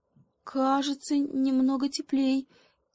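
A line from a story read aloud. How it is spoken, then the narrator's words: Uncertain monkey. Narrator (Russian): неуверенно ответила обезьянка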